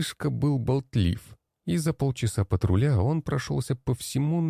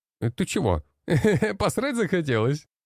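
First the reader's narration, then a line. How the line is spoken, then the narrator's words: Laughing. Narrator (Russian): Рассмеялся Илья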